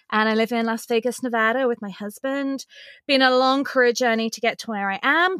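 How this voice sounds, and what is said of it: English accent. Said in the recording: “I'm originally from England, hence the accent.”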